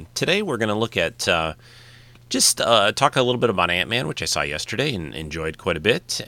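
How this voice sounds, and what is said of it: Nasal, congested voice. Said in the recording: “I sound a little nasally,... I have a little bit of a summer cold,... I might sound a little different”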